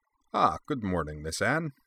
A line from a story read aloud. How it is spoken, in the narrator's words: the droid said in a pleasant voice with a slight German accent